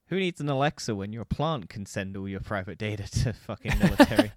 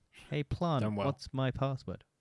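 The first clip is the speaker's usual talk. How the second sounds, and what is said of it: Put-on voice of a plant. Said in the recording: “my impression of a plant”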